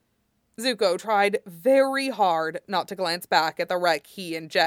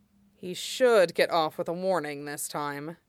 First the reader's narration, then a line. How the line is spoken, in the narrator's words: Huojin said in an undertone